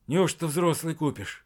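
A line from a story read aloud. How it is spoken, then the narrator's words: Joyful, shaky-breathed whisper. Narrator (Russian): от радости, вздохнул он судорожно и прошептал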